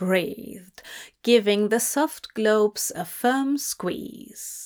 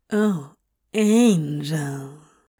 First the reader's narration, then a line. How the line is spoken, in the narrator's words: he purred